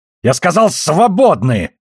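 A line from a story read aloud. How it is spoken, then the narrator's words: Barked. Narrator (Russian): рявкнул на него Син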